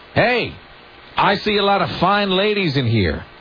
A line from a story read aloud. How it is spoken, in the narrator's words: Kevin called out to the crowd saying